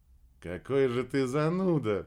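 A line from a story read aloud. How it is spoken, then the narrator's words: Laughing. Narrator (Russian): рассмеялась Кира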